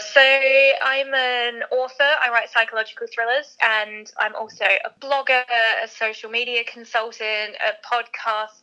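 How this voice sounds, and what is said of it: Slightly mixed Australian accent. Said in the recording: “I'm Australian, as you might be able to tell from the accent, although it's a little bit confused.”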